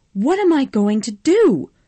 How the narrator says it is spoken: Scarlett screamed

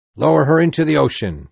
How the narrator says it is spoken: cried

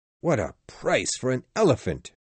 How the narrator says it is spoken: cried Passepartout

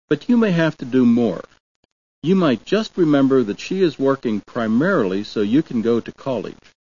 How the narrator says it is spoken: Dad said evenly

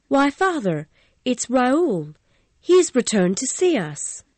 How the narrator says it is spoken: She cried out in a sweet voice

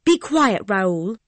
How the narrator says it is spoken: cried

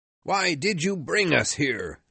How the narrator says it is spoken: shouted

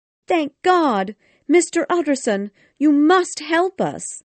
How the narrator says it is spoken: Jekyll's cook ran to him, waving her hands wildly and crying

